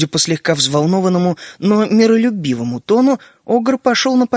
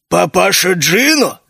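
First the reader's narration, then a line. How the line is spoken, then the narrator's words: Mocking snort, ogre. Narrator (Russian): Огр насмешливо хмыкнул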